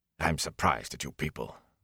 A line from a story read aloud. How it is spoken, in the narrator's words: Bran rumbled